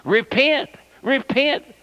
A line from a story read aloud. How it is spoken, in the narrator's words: hollered